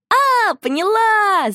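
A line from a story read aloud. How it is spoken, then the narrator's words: Shout. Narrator (Russian): закричала Шуша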